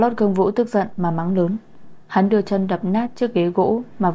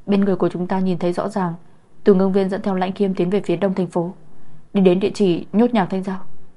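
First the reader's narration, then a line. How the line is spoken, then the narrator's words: Frightened stammer. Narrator (Vietnamese): Người báo tin sợ hãi, giọng nói lắp bắp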